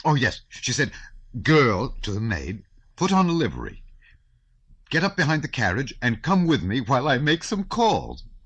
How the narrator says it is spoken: Prince Hippolyte spluttered and burst out laughing long before his audience

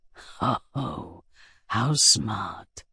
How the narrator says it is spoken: Pyotr Alexandrovich whispered

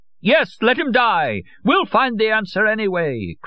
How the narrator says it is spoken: cried Madame Olcott, equally carried away

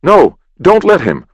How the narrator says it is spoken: Will cried

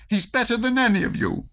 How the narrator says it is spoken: exclaimed Natasha

